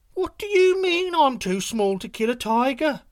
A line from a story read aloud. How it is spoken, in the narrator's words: said Yu-Yu scornfully